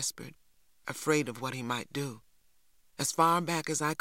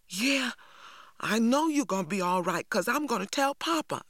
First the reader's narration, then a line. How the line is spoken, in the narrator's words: I cried